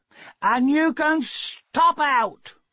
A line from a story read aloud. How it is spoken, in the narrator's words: She shouted down the yard